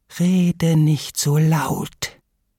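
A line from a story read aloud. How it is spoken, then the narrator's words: Lame duck hissing. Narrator (German): zischt die lahme Ente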